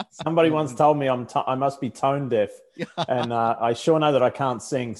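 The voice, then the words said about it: Australian accent. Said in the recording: “I haven't lost my Australian accent after all these years”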